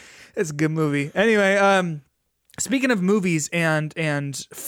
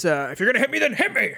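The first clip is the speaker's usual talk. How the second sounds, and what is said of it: Impression of a movie character's voice. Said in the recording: “the Morpheus impersonation was the best one yet”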